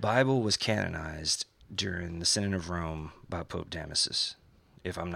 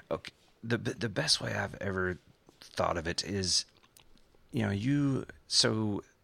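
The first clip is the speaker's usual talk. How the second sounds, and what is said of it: Stuttering, halting speech. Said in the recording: “I'm stuttering here.”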